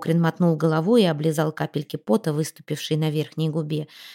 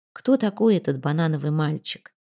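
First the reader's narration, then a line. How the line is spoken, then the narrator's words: Weary inquiry. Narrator (Russian): устало осведомился клоун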